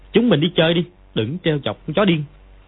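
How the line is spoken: Angry. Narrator (Vietnamese): Võ Đôn Nhu tức giận nói

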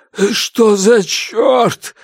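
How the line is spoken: Hoarse male voice. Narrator (Russian): наконец прохрипел мужчина

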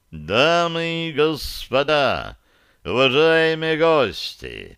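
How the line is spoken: Loud, pompous announcement. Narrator (Russian): вновь зазвучали слова, наполненные важностью и достаточно громко

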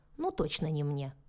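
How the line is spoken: Wry snort. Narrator (Russian): хмыкнул Анджи

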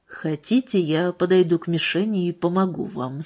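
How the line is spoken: Quiet question. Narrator (Russian): спросил Дженнингс, тихо

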